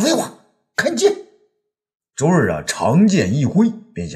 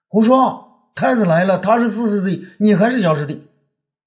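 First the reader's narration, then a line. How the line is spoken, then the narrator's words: Angry. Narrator (Chinese): 周儿就怒了起来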